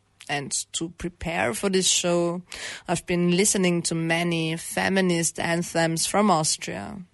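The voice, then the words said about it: Slightly hoarse voice. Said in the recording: “You might hear it in my voice. ... am therefore a bit hoarse.”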